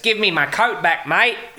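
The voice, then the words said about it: Bad put-on Australian accent. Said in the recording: “his bad Australian accent in The Great Escape... He plays an Aussie”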